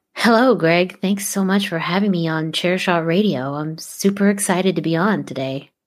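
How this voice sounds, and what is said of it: Monotone, soft radio-host voice. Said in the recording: “my NPR voice ... A little bit more monotone and softer.”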